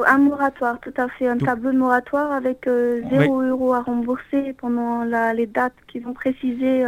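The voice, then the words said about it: Speaks with a pleasant accent. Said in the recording (French): “vous avez un très joli accent.”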